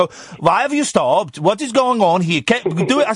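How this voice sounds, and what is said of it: Put-on Swedish accent. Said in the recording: “the woman, who I think was Swedish ... your accents are skillful and to be confirmed”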